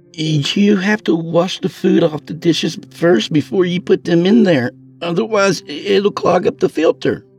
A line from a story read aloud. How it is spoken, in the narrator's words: Tyrell exclaimed